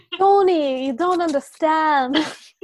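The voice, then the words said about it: Put-on Italian American accent. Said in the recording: “My Italian American accent. ... I wasn't good.”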